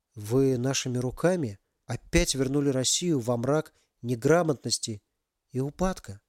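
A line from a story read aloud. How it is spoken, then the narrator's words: Quiet question. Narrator (Russian): тихо спросил Максим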